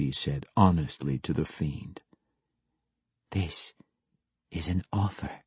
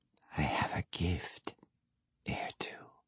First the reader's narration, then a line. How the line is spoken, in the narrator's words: she purred